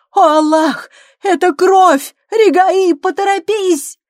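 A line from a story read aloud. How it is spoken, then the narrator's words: Weak cry. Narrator (Russian): женщина, слабо вскрикнув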